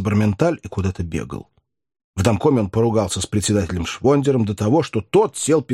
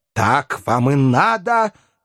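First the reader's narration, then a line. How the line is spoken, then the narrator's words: Growling. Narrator (Russian): рычал Филипп Филиппович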